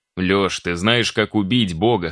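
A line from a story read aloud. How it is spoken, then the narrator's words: Plain. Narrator (Russian): спросил Вячеслав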